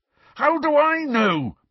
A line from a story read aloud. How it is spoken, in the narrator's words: bellowed Harry